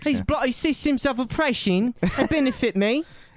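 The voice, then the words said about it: Put-on British accent. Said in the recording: “he probably has like a British accent ... he'd definitely have a British accent”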